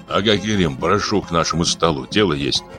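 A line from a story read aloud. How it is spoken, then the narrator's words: Whisper. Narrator (Russian): Более молодой шепнул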